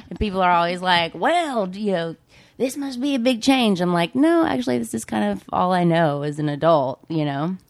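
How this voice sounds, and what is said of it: Mississippi Southern accent. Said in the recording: “come from Mississippi ... you hear my accent”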